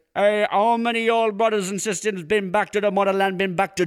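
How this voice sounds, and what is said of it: Put-on thick Jamaican accent. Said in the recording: “the thickest Jamaican accent I've ever heard in my life”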